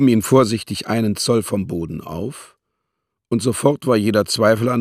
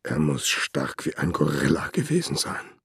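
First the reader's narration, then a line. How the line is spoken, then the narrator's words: Murmured. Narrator (German): murmelte er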